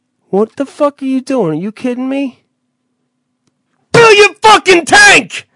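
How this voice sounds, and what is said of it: Angry yelling. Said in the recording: “Stop yelling at me... start out calm and then become just blind rage”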